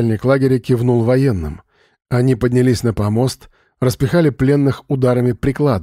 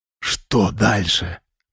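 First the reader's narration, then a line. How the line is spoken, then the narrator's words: Whisper. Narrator (Russian): прошептал Вадим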